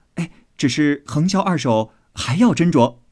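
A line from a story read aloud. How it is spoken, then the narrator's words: Laughing. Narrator (Chinese): 又笑道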